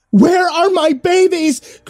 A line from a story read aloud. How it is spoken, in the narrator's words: Grace yelled